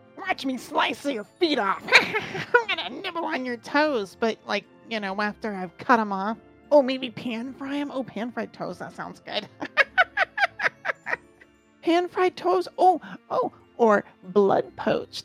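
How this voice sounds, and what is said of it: Evil munchkin-like creature voice. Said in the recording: “what's your red cap voice? ... Sounded more like an evil munchkin.”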